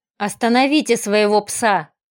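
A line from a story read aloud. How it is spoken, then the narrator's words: Wary growl. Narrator (Russian): зарычал, с опаской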